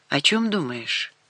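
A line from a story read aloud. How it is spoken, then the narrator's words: Quiet question. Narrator (Russian): тихо спросил Рашид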